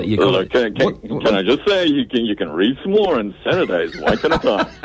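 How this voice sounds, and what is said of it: Big cheesy radio announcer voice. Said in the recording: “a big cheesy radio voice”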